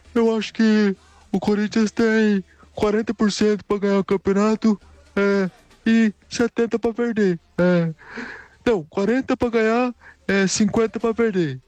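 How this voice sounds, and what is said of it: Poor imitation of another person's voice. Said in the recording (Portuguese): “o cara ainda é péssimo pra imitar o Casagrande. É muito ruim, velho.”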